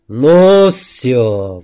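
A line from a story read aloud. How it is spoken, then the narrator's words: Roared. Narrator (Russian): взревел кирпич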